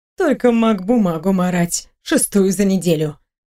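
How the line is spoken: Muttering grumble. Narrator (Russian): пробурчала Тиса Лисира

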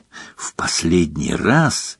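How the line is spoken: Slightly hoarse whisper. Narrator (Russian): прошептал Гарри голосом, слегка осипшим за 45 минут молчания

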